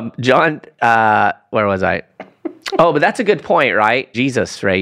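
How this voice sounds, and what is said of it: Usual voice. Nothing is said of it.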